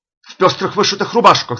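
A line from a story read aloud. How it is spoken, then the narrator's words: Shout. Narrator (Russian): закричал Бахага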